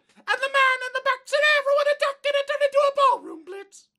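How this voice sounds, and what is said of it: Singing in falsetto. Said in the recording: “I'm gonna do my favorite falsetto singing song.”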